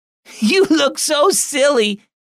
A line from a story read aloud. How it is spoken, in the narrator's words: his sister Sarah howled with laughter